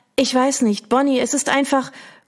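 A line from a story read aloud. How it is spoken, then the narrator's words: Choked voice. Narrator (German): bringt sie mit erstickter Stimme hervor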